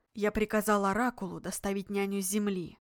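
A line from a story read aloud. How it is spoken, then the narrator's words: Quiet. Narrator (Russian): негромко произнес он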